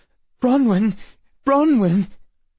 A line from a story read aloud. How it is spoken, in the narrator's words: Emma gasped